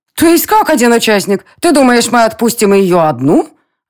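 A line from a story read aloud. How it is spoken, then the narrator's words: Indignant exclamation. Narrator (Russian): Возмущенно воскликнула Лора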